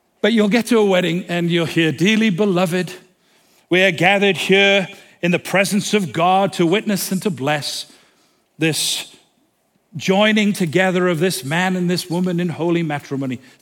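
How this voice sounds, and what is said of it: Speaks with a distinctive accent. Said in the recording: “Sounds good, doesn't it, with my accent? I've been told my accent should give me another 10 grand.”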